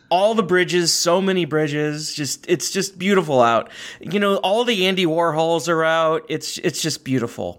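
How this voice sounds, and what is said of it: Midwestern accent, hard vowels. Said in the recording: “my stupid, you know, Midwestern accent getting the worst of me with all my hard vowels and consonants”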